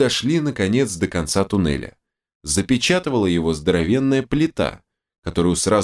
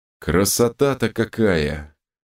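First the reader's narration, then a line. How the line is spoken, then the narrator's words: Drawling. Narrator (Russian): протянул док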